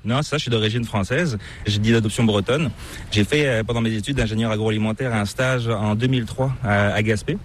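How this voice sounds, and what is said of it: Slight hard-to-place French accent. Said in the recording (French): “tu as une petite pointe d'accent qui est assez difficile de deviner. Donc je sais pas, c'est pas l'accent québécois.”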